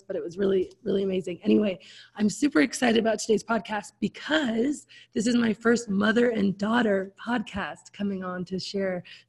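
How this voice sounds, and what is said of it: Hoarse, partly lost voice. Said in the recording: “losing my voice a little bit, not because I'm sick, but because I just got back from a Tony Robbins conference where I did way too much yelling. So I've lost my voice”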